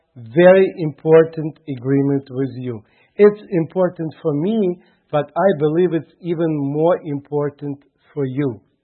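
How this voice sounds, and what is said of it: Heavy Russian accent. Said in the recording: “my heavy accent ... my broken English ... my straight Russian”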